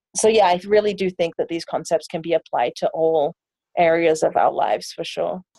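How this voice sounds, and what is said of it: English London accent. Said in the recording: “you have an accent ... I'm from England. I was born and raised in London”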